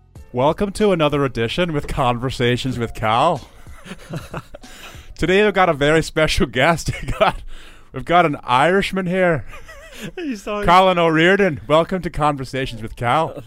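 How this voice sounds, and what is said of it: Put-on Northern Irish accent. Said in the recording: “I'm not from the north ... that's a Northern Irish accent ... My accent. ... I'll talk in my normal voice for the remainder of the podcast”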